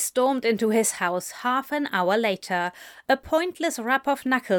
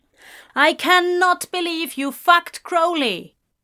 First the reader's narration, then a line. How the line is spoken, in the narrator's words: she shouted